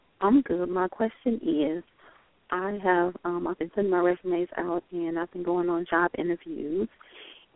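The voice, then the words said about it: Lovely accent. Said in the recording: “your accent is absolutely lovely”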